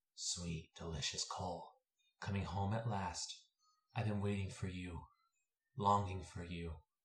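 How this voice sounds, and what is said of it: Creepy character voice. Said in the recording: “a familiar, creepy voice”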